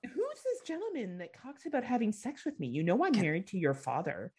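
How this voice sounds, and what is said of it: Impression of speaker's mother. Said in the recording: “that impression of your mother was spot on.”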